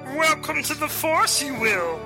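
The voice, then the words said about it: Star Wars character impression voice. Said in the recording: “McJiminy Star Wars Impersonators. We can do all your favorite voices.”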